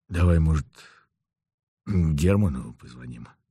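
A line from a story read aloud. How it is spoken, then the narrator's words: Hoarse. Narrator (Russian): сказал я хрипло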